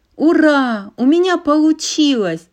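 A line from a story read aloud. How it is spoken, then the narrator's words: Exclaiming. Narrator (Russian): воскликнула она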